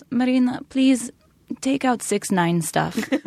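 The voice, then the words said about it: Russian-accented imitation of mom. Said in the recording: “my parents are Russian, and so this will explain my accent.”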